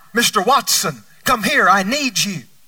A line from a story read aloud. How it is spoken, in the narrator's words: called out